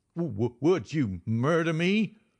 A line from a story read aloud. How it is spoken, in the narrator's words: he stammered